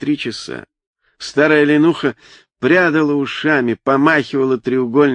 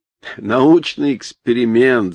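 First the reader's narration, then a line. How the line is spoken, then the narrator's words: Laughing. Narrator (Russian): засмеялся Саша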